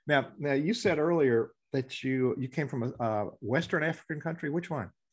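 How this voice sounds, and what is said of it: Southern US dialect. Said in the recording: “my dialect and you know, I'm Southern, y'all”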